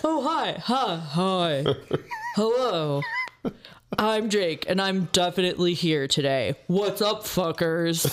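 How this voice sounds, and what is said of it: Imitates another person's voice. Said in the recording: “that was a really good impression ... trying to do drag voice ... That really hurt my throat”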